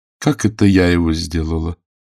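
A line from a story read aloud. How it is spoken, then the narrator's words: Calm question. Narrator (Russian): спросила она, спокойно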